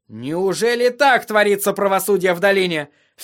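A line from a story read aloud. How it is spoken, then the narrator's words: Very loud exclamation. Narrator (Russian): вскричал Тирион так громко, что сир Вардис застыл на мгновение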